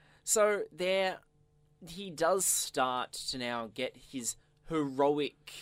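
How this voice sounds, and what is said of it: Usual voice. Nothing is said of it.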